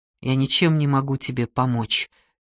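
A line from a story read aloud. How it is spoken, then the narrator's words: Quiet. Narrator (Russian): тихо произнес я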